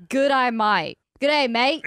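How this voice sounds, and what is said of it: Put-on Australian accent. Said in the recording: “You have a good Australian accent”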